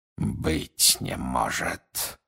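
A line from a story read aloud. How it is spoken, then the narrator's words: Breathed out. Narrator (Russian): выдохнул он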